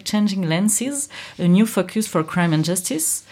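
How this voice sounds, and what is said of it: Polished English accent. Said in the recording (French): “Quel accent Quelle classe. C'est très bien.”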